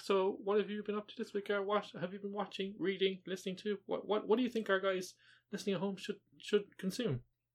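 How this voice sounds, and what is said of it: Condescending teacher voice. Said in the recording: “You did a very kind of condescending teacher voice there. ... Like 11 a.m. TV host.”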